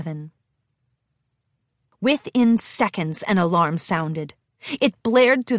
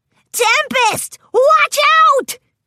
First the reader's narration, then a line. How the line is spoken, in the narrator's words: yelled